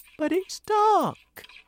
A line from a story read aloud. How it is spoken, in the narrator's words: cried James